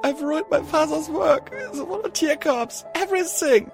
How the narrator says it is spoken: she said as she wept with tiny little gasping sobs

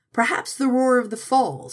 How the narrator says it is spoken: shouted Hasbro

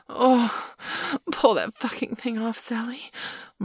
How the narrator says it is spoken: Marla wailed in an almost mindless rapture

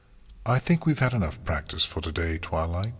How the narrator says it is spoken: Celestia said calmly

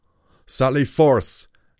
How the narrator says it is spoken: Dreadstep shouted

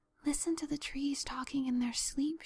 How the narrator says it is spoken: she whispered

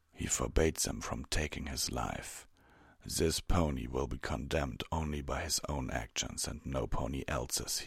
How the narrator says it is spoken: he said

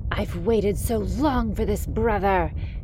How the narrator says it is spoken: she spat

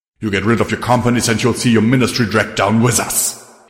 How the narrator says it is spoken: he spat

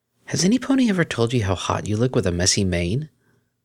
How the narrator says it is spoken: Chuckling quietly, Octavia

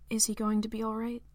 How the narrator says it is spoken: Jala asked

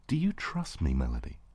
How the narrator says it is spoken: I asked aloud, firmly, yet gently

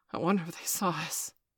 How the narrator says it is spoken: Steph gasped

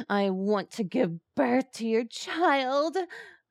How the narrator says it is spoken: Aquino moaned

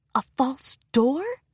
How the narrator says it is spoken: Twilight whispered to herself

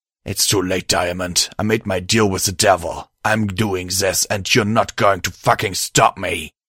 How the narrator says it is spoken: my host growled angrily

